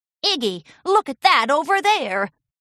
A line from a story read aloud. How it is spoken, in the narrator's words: Cloudy yelled out